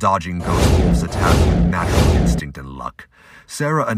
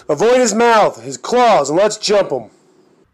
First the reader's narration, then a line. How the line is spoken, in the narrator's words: He yells